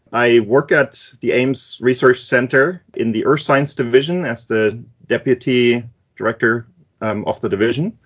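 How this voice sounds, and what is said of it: German accent. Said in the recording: “that is a German name, if you're wondering about the accent”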